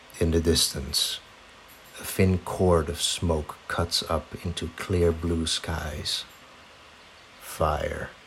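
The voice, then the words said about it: Dramatic storytelling narrator voice. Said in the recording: “So I can use my narrator voice.”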